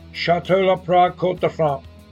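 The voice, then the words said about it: Put-on French accent. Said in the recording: “uses her best French accent ... You and your French.”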